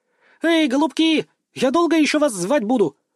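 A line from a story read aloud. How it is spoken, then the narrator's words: Ringing shout while running. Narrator (Russian): звонко крикнула Канна, подбегая к нам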